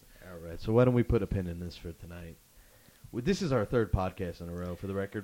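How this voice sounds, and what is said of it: Sore, tired voice. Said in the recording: “My voice is sore. I'm tired.”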